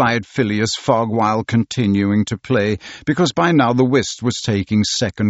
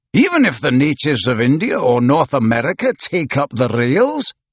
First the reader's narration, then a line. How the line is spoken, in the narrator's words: exclaimed Andrew Stuart